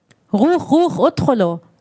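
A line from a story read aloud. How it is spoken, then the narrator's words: Soldier demanding, Hebrew-accented Arabic. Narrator (German): forderte ein Soldat auf Arabisch mit hebräischem Akzent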